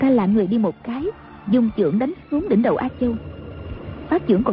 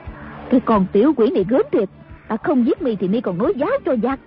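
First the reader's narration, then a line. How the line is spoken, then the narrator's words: Angry. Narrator (Vietnamese): Đàm bà giận dữ nói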